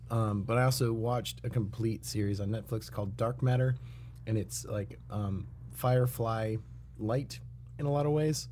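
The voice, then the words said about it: Hoarse, strained voice. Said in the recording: “Recorded a thrash metal song this Sunday, which is why ... my voice is shot.”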